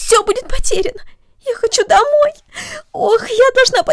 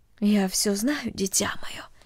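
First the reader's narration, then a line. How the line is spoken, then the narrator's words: Soft, motherly. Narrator (Russian): тихо сказала мать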